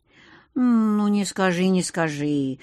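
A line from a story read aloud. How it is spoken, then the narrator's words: Purring drawl. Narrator (Russian): мурлыкающе протянул Неоки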